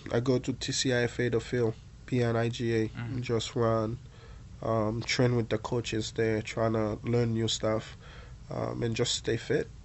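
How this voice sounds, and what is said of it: Hoarse, weakened voice. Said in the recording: “I've been a little bit sick ... my voice is gone a little bit”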